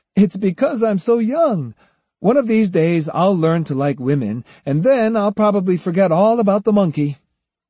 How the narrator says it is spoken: Kojiro replied laughingly

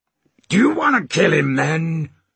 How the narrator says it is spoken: bellowed Stash, afraid of hitting their chief

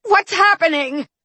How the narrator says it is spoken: I had to shout to be heard

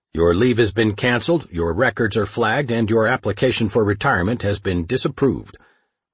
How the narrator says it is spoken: one of the agents said sternly

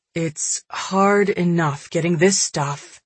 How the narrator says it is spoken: Ian sighed

